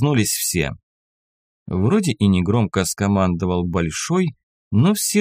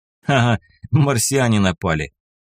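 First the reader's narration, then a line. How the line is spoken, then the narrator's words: Chuckle. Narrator (Russian): хохотнул Шах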